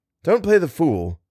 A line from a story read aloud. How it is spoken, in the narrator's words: said Barnes crossly